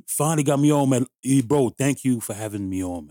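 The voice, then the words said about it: Speaks with an accent. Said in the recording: “You have an accent. ... Brooklyn born, but my family's from Grenada.”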